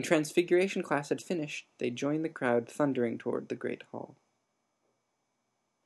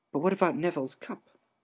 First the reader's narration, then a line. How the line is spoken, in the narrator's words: Lavender whispered